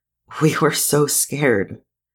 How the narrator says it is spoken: she falters, takes a shuddering breath, whispers

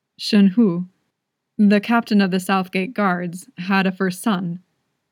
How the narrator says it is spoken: he said

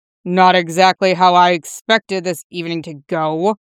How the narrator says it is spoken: Boyle grumbled

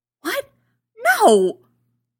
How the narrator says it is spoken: gasps loudly

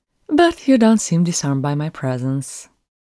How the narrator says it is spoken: Daza said cheerfully

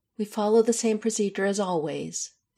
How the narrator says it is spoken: Isabel says firmly

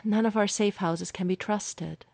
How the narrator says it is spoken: Clint sighed

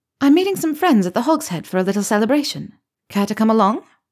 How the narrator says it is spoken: Rolanda had continued, saying brightly

